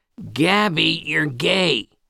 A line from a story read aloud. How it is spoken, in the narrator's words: she screamed